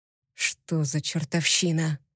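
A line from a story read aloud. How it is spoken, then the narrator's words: Whisper. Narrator (Russian): прошептал Виктор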